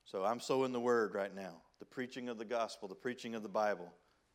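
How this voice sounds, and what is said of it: Country Southern redneck accent. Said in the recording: “my country redneck accent”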